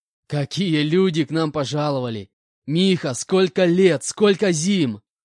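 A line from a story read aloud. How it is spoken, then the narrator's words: Laughing reply. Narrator (Russian): Расхохотавшись, ответил Валера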